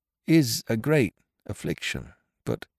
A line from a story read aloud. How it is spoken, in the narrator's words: he faltered